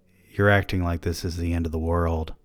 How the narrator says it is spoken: I said softly

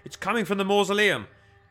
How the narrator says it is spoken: Kilvir shouted

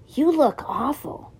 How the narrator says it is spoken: After a slight hesitation, she whispered

